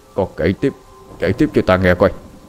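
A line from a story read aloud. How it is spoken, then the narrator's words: Stammering whisper. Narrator (Vietnamese): Ông ta lắp bắp thì thào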